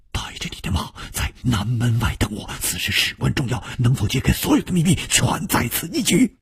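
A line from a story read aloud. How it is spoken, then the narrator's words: Hushed whisper. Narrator (Chinese): 楚留香却已经压低了语声，悄悄地说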